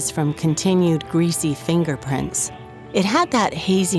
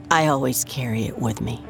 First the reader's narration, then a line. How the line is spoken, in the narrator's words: she said